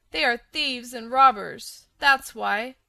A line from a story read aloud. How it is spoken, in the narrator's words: cried a small, sharp voice